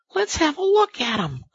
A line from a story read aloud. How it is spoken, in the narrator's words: cried the rat